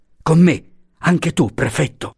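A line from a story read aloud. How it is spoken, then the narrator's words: Exclaimed. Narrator (Italian): Franco esclamò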